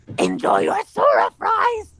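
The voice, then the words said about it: Throaty, demonic Donald Duck voice. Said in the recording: “your Donald Duck voice ... I tried to do the more throaty voice with it, and it sounded like a demon”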